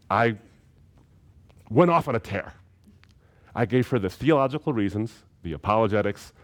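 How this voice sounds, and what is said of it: Usual voice. Nothing is said of it.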